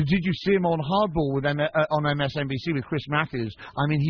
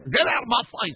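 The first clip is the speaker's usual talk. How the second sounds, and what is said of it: Shouted impression of another person. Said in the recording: “that wasn't a bad impression ... I like the way you celebrate your own impression in the middle of it. That was pretty good.”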